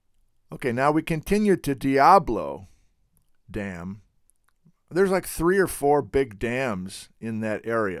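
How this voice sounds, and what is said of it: Clogged, congested voice. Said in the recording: “Why does my voice clog up as soon as I'm talking to you down here?”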